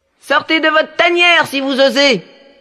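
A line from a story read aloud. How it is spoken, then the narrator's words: Determined shout. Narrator (French): cria-t-il d'une voix décidée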